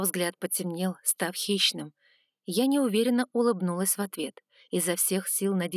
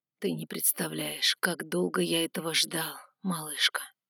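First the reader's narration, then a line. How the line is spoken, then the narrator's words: Whispering. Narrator (Russian): шептал он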